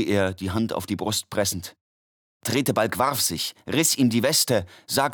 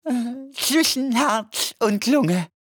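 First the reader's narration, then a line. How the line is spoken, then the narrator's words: Groaning. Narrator (German): stöhnte der Doktor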